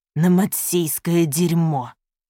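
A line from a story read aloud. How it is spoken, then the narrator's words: Hiss. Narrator (Russian): прошипел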